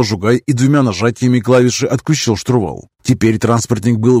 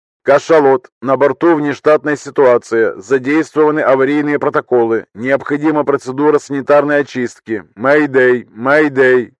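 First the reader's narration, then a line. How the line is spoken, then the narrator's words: Plain. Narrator (Russian): говорит колониальный транспорт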